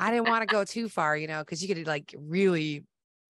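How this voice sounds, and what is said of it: Usual voice. Nothing is said of it.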